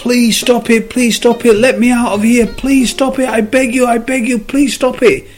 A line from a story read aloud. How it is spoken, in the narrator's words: the cup started screaming